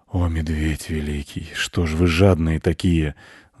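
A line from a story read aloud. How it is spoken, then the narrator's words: Sighing wolf. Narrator (Russian): вздохнул волк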